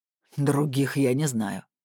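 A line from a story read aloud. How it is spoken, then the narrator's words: Snort. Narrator (Russian): хмыкнул Блуд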